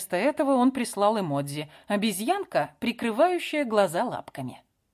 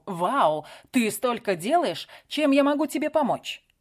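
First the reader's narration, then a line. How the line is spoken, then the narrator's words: Calm, not exclaimed. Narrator (Russian): Он не воскликнул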